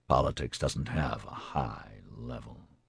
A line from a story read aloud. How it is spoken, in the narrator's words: Gore muttered